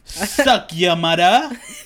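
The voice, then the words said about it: Put-on Jamaican accent. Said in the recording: “I want to try to practice my Jamaican accent... speaking like full like Jamaican accent”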